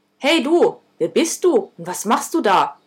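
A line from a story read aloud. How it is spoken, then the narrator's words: Barked. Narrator (German): bellte ich das Ding an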